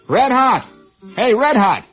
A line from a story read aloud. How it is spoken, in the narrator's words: he shouted